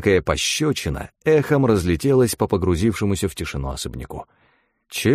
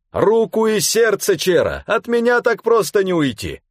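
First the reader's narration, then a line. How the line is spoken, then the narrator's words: Soldier laughing, shouting loudly. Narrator (Russian): военный с хохотом, повысив голос, крикнул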